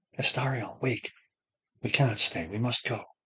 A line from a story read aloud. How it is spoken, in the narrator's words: Ged roused his friend, whispering